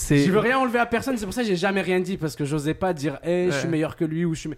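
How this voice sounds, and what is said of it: French accent. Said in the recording (French): “T'as un peu un accent à l'européenne ... j'ai l'accent français”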